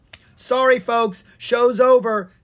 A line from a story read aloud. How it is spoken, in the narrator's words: Steve the singing sword yelped